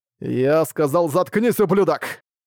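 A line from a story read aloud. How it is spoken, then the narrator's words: Growled again. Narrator (Russian): Вновь прорычал Арк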